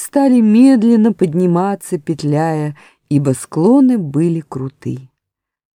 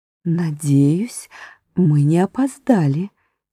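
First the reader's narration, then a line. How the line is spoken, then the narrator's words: Quiet addition. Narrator (Russian): тихо прибавила Уинни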